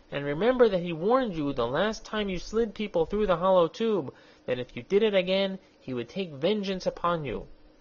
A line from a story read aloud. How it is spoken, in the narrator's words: he pleaded